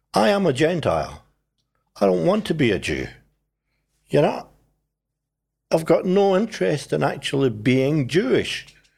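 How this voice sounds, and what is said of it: Scottish accent. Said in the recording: “The accent gives you... It's Scottish a giveaway.”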